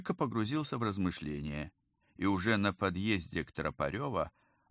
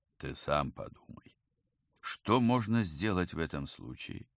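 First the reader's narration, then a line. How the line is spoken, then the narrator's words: Gentle advice. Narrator (Russian): мягко посоветовал ему Павел Павлович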